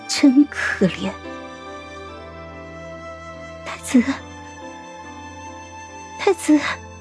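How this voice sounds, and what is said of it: Softly calling out. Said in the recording (Chinese): “我小声的唤着”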